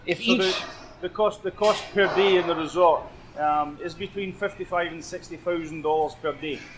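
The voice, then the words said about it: Scottish accent. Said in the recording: “That was a Scottish accent.”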